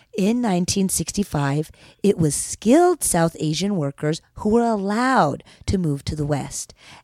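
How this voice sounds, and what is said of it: Calm public-radio announcer voice. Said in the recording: “in an NPR voice,”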